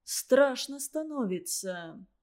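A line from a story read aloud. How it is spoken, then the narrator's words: Quiet. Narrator (Russian): тихо сказал Злобин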